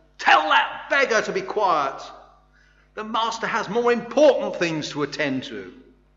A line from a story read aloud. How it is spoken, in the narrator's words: The ones leading the way yelled